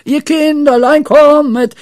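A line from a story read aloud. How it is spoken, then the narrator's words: Shout. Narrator (German): schrie Pippi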